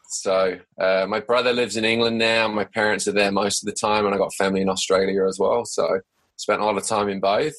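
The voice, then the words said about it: Mixed English and Australian accent. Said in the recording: “you have a accent ... it's a mix of an English Australian accent ... I've got a bit of a, a mixed accent”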